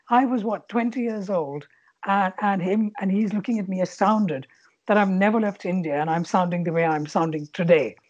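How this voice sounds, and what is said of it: Indian English accent. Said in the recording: “you can clearly hear the Indian accent ... articulating in a certain way”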